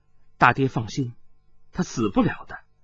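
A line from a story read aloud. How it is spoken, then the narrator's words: Cold. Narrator (Chinese): 柳和一冷冷的说道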